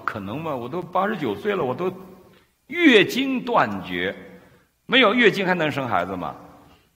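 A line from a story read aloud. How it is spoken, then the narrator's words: Secretly laughing, incredulous. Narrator (Chinese): 萨拉基本就不信，因为萨拉在偷着笑说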